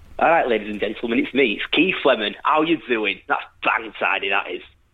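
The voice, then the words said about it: Leeds accent character impression. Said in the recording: “my Keith Lemon impression ... Everyone in Leeds can do the accent ... He's pretty good ... less of an impression and more just you doing your normal accent with a speech impediment”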